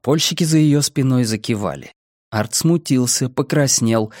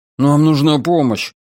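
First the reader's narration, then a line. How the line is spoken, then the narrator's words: Timid babbling. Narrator (Russian): пролепетал он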